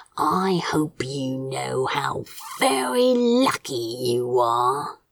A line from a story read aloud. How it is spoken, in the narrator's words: he growled